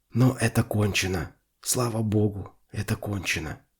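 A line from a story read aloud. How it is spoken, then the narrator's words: Whisper. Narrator (Russian): прошептал он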